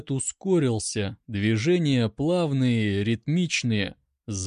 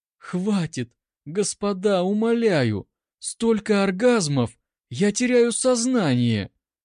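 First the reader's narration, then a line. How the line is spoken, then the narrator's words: Faint hoarse voice. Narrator (Russian): Голос хрипел еле слышно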